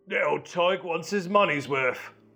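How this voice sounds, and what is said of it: Put-on Cockney accent. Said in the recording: “I gave him a Cockney accent.”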